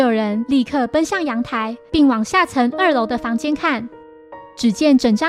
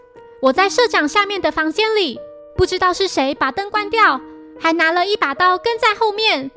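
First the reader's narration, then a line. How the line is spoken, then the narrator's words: Screaming. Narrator (Chinese): 光明大声尖叫，并说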